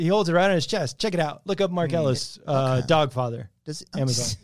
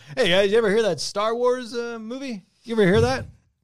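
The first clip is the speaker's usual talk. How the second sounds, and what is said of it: Imitates another person's voice. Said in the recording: “That's my impression.”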